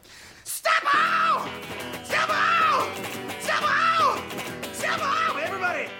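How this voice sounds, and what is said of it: Heavy metal falsetto. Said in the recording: “I love your heavy metal falsetto.”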